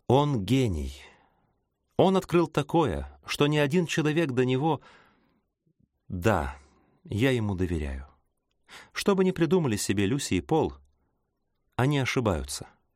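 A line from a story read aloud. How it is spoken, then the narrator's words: Sighing. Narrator (Russian): он вздохнул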